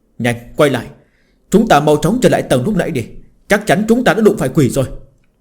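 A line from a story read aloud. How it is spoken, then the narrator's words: Hurried loud shout. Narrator (Vietnamese): Ông ta vội vàng hét to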